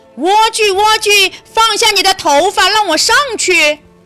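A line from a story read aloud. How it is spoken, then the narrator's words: Witch calling up. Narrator (Chinese): 巫婆要进去，就站在下面叫道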